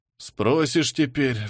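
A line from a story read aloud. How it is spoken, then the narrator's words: Sighing. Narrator (Russian): вздохнул замнач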